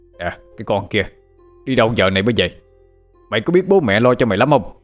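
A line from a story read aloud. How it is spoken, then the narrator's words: Scolding shout. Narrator (Vietnamese): ông tiến tới quát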